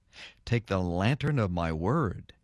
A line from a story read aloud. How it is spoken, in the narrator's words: he whispered